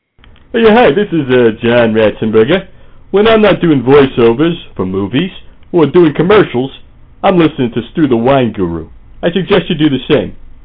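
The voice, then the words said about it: Imitates another person's voice. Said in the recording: “No actual celebrities were used in the making of this promo, only celebrity impersonators.”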